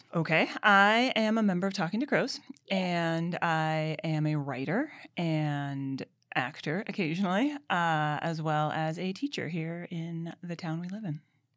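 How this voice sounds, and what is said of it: Smooth radio DJ voice. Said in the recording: “get a load of that radio voice.”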